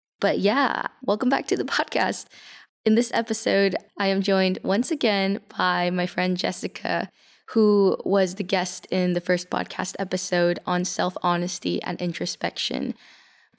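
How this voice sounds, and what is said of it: Hoarse, recovering sick voice. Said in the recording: “excuse my voice. I've been quite sick the last few weeks and my voice is slowly recovering”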